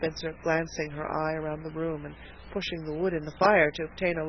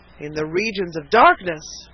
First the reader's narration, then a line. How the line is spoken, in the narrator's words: cried a voice